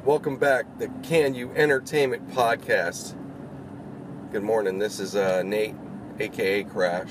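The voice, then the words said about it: Tired, low voice. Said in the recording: “you can probably hear how tired I am, I would imagine. ... Or my voice is all low.”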